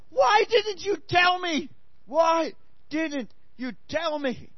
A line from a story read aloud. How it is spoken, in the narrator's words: your friend ... with terror-filled eyes and screams